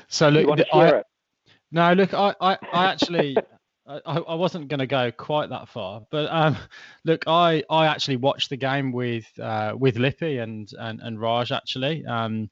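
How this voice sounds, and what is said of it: English accent. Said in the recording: “you may have detected from my accent... I'm from the UK, from England originally”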